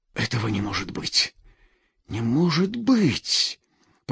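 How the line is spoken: Whispered. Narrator (Russian): прошептал Бориска

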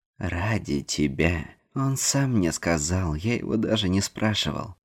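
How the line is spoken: Calm. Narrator (Russian): спокойно произнес Нил

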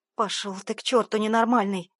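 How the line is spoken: Furious growl. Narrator (Russian): прорычала бешено

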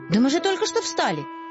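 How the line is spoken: Exclaiming. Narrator (Russian): воскликнул Финдус

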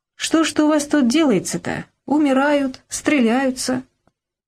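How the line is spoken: Strangely cheerful voice. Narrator (Russian): Сергей Андреевич спросил каким-то странно веселым голосом

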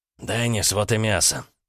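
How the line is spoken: Hoarse with excitement. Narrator (Russian): сообщил хриплым от волнения голосом

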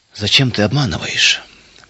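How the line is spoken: Sad father asking. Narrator (Russian): печально спросил отец

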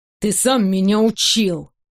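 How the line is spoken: Through gritted teeth, panting. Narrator (Russian): Сижу сквозь зубы, тяжело дыша

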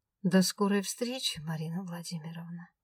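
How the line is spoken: Gentle, ominous promise. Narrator (Russian): Ласково пообещал он

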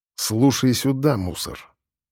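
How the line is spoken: Angry, through gritted teeth. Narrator (Russian): Зло процедил

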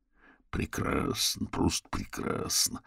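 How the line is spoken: Muttering. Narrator (Russian): пробормотал себе под нос Орвилл

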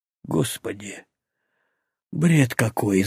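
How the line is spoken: Exhaled words. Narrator (Russian): выдохнул Игнатов

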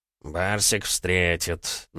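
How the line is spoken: Displeased grumble. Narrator (Russian): недовольно проворчал Ежов

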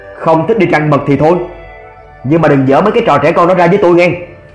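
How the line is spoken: Stern voice. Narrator (Vietnamese): Thế Long đã nghiêm giọng nói

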